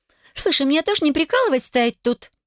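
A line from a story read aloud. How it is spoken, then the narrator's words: Indignant snort. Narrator (Russian): возмущенно фыркнула незнакомка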